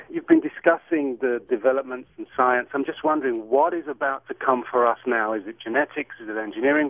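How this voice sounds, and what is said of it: British accent. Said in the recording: “I love your accent ... it's not an L.A. accent ... where's that accent from? ... It is from the UK.”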